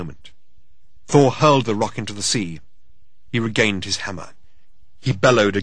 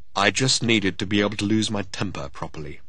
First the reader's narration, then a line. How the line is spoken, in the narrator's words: he said